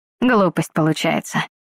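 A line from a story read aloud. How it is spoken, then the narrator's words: Muttering. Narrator (Russian): буркнул он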